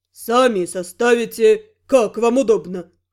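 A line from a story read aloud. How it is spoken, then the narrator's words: Careless snort. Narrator (Russian): небрежно хмыкнул связист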